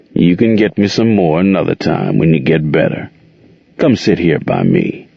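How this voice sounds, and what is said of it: Rough, crooning male character voice. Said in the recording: “crooned in his rocky voice”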